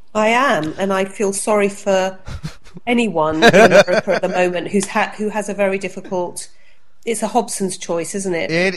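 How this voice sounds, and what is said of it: Distinctive foreign-sounding accent. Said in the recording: “especially with your accent”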